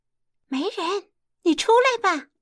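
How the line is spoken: Calling out. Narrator (Chinese): 那金莲惦记着静姐还在洞里，叫陈静姐

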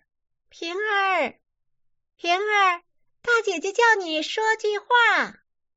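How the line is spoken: Calling out. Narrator (Chinese): 孟玉楼叫

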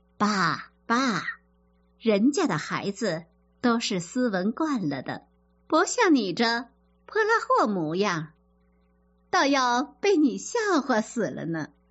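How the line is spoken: Laughing. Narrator (Chinese): 尤氏笑着说

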